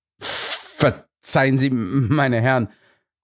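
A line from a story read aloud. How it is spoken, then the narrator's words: Stammering. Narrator (German): stammelte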